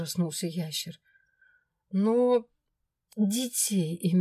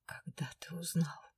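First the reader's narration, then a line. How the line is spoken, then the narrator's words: Despairing numb whisper. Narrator (Russian): Помертвевшими губами прошептала я в отчаянии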